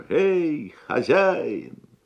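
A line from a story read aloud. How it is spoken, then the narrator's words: Loud booming shout. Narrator (Russian): крикнул своим зычным голосом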